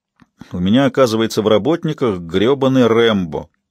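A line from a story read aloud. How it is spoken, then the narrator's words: Amused snort. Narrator (Russian): хмыкнул Брю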